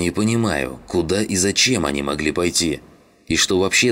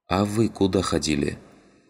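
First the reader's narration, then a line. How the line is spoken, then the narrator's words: Quiet question. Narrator (Russian): тихо спросила сидящая в углу Родька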